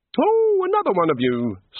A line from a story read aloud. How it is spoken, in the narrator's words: said the god brightly